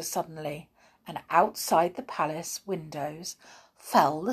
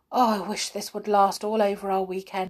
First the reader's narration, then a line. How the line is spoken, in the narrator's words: sighed Molly